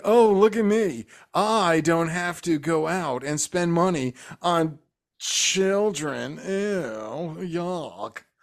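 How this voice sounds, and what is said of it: Mocking put-on character voice. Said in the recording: “out of all your impersonations, voices, that was bad”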